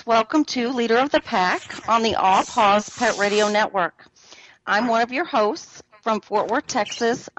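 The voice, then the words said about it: Southern belle accent. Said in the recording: “I love that Southern Belle accent of yours”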